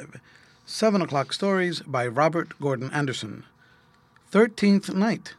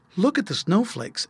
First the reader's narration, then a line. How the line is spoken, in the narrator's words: exclaimed the three happy children, all in one breath